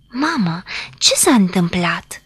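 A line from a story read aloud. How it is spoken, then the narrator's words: Frightened question. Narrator (Romanian): întrebă Adela speriată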